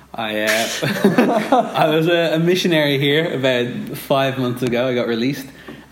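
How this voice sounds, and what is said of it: American-sounding accent. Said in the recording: “I'm from Dublin, Ireland. Not America, despite what my voice sounds like.”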